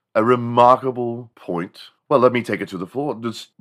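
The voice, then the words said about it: Put-on British accent. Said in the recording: “the British accents ... I just can't talk like that anymore”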